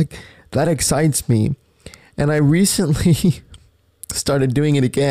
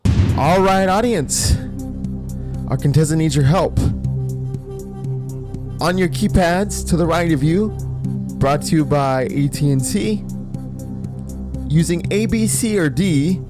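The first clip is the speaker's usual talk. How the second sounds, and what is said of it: Game show host voice. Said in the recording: “mimicking a game show ... I will sit around and mimic a game show.”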